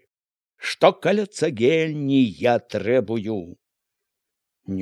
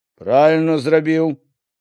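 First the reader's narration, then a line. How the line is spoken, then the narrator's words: Loud, unhesitating. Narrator (Belarusian): заявіў голасна, ні трохі не вагаючыся, Міканор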